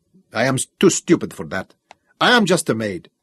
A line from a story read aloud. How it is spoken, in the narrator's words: she said harshly